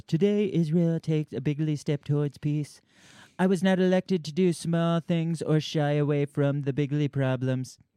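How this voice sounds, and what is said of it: Imitates another person's voice. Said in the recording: “should I read in Trump voice? ... I did my Trump voice.”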